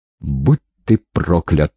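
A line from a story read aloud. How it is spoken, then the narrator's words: Through gritted teeth. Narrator (Russian): процедила сквозь зубы Ольга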